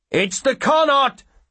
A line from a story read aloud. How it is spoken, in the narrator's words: one of the brakemen shouts